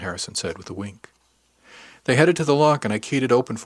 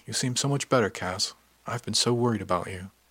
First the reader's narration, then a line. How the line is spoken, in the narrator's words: the captain say softly